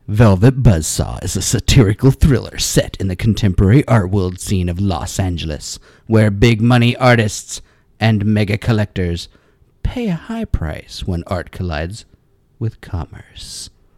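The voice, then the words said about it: Dramatic reading voice. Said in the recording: “I'm going to read this in a dramatic voice”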